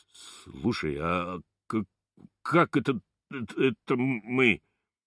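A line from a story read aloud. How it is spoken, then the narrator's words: Stammering question. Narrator (Russian): вопрошает, заикаясь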